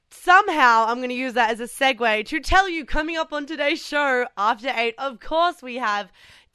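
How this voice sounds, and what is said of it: Raspy voice. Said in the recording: “my voice is a little bit sus today, which I'm sure you can hear ... A little raspy ... A little raspy”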